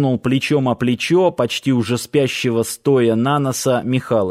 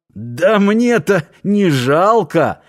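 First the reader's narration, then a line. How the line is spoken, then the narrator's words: Laughing. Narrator (Russian): засмеялся комендант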